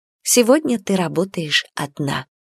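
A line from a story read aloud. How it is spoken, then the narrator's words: Whisper. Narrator (Russian): прошептала Калее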